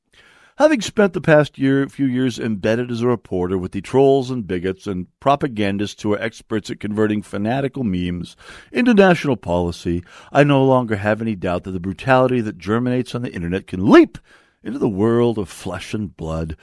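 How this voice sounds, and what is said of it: Mocking stereotypical leftist voice. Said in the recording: “It's Andrew Marantz talking here. That's why I'm doing the typical leftist voice.”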